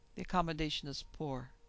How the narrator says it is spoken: was a reply in a thin, fluting voice

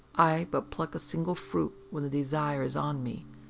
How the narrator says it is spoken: the tall man said quietly

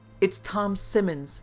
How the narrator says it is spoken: cried

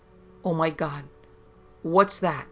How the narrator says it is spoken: began to pant and gasp

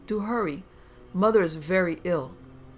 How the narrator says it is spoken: cried

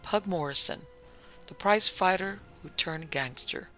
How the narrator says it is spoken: Bill Brakey said in an undertone

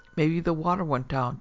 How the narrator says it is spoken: Judd said in a bored voice

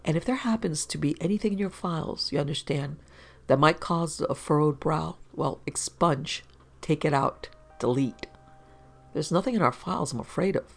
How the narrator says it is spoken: whispered

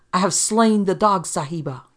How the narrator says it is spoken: he exclaimed

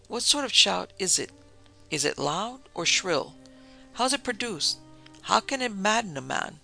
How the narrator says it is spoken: Richard asked, gasping

